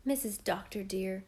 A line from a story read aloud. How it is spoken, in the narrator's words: Susan said in an awed tone